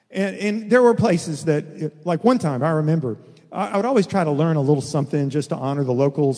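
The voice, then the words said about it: Texan American accent. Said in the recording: “I know two languages, English and Texan ... I listen with a Texas accent”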